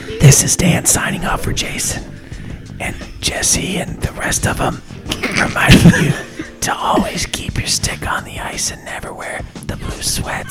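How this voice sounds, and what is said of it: Whispering. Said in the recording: “we're going to whisper from now on ... You sound like a bunch of little girls gossiping at a sleepover”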